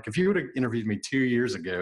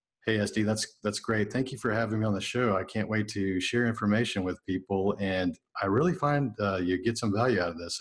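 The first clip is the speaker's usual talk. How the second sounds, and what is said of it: Flat monotone voice, one volume. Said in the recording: “monotone because dudes, we speak monotone ... this is how I would have sounded ... monotone ... one volume, one volume, one tone”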